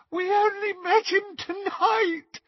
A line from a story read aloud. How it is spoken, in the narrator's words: Hermione sobbed